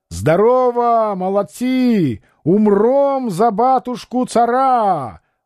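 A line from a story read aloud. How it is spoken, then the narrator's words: Shouting to soldiers. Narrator (Russian): Герцог кричал солдатам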